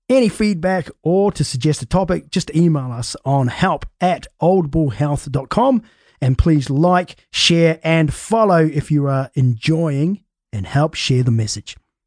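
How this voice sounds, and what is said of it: Scottish accent. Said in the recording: “that whole introduction in Scottish ... in a really bad Scottish accent”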